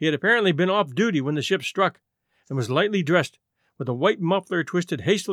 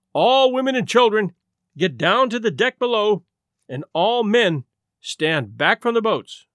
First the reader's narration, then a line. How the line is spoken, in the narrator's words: shouted above the noise of escaping steam